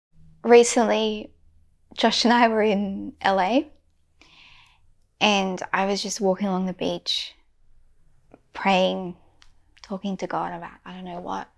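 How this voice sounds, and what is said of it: Australian accent. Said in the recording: “Oh, are you from Australia?" Because they heard my accent.”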